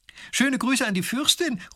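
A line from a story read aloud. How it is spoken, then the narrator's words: Calling after someone. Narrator (German): ruft die Prinzessin noch hinterher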